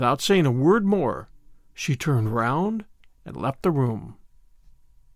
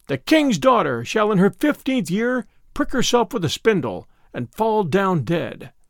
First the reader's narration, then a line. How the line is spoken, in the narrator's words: she cried with a loud voice